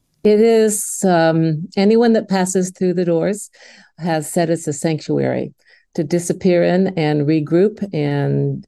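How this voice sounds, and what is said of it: Midwestern American accent. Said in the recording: “I have the Midwestern accent. I'm from Indiana, so smack dab in the center of the United States. ... I love all sorts of American accents.”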